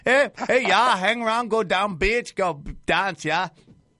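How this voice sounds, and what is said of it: Poor put-on Hawaiian Pidgin accent. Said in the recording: “your Hawaiian impression? ... that's called pigeon. It's called pigeon. They talk like that. ... That was horrible at that. ... the pigeon accent ... If you were doing that accent in Hawaii, they would laugh you out of the place.”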